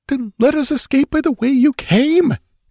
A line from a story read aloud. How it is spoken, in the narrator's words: exclaimed Mirlo